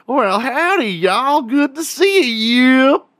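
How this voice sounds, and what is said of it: Exaggerated redneck Texas drawl. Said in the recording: “people that talk very, very redneck ... here in Texas”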